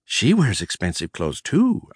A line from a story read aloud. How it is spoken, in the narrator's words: I murmured, lost in thought